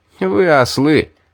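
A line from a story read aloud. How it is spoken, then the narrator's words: Loud, laughing. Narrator (Russian): Сквозь смех громко сказал я, надеясь, что и кто-нибудь из разбойников меня услышит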